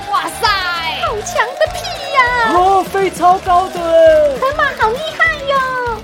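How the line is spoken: Loud cheering. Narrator (Chinese): 动物们都高声欢呼

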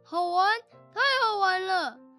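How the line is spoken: Giant shouting. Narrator (Chinese): 大巨人叫着

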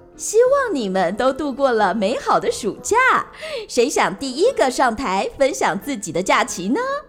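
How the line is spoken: Smiling, to a class. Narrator (Chinese): 他对全班同学微笑着说

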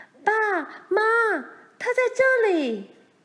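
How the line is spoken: Repeated calling. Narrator (Chinese): 他不断地叫着

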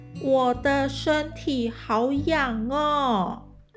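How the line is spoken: Loud. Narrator (Chinese): 贝拉大声地说

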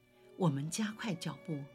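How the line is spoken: After a deep sigh. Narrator (Chinese): 她深深地叹了一口气，又说

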